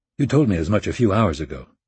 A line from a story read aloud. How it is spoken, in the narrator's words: Rapp said in a calculatedly bored tone